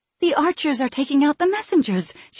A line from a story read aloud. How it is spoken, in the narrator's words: she gasped